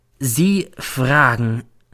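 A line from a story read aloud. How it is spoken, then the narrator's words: Slow. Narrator (German): sagt dann langsam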